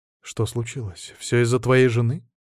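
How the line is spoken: Sighing. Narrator (Russian): Я вздохнул

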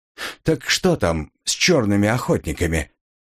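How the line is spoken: Neutral tone. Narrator (Russian): повторил нейтральным тоном

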